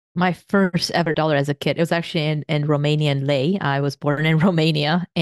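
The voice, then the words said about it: Slight foreign accent. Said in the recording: “You also have a bit of an accent.”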